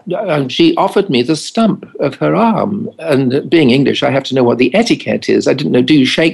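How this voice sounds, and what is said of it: Usual voice. Nothing is said of it.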